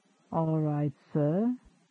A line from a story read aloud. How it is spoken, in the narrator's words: he murmured